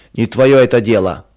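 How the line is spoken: Rude reply. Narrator (Russian): грубо отвечал он жене

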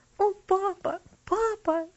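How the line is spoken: Sobbing. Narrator (Russian): всхлипывала она

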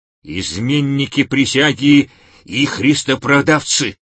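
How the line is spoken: Menacing growl. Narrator (Russian): угрожающе прорычал Варисбакурий

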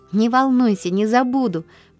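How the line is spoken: Joyful, confident promise. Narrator (Russian): пообещала Полианна радостно, уверенная на этот раз, что выиграла дело

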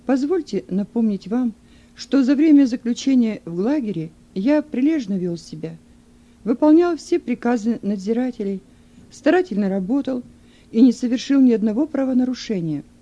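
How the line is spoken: Calm voice. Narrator (Russian): Юн спокойным голосом ответил

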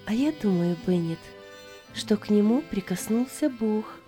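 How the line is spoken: Calm. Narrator (Russian): сказала спокойно

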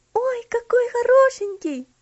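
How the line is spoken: Delighted exclamation. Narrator (Russian): воскликнула Элси, хлопая в ладоши

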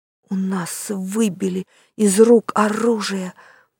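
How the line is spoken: Whispered. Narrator (Russian): прошептал Юстас

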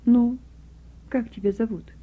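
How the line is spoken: Gentle teenage boy. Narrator (Russian): мальчик лет 15-16 ласково заговорил

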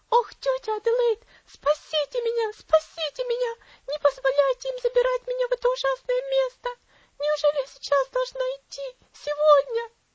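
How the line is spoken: Cowering girl shrieking. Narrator (Russian): Девочка опять вся сжалась и завизжала

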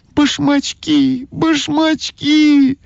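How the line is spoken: Shouting. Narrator (Russian): закричала Ойка

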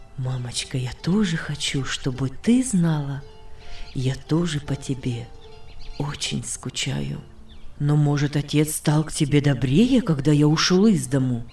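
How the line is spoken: Calm soft voice. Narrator (Russian): Иосиф сказал своим спокойным, мягким голосом

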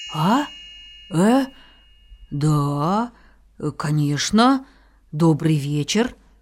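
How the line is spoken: Halting speech. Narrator (Russian): сказал, запинаясь

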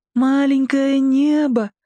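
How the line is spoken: Child's slightly singsong repeat. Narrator (Russian): чуть нараспев повторил малыш

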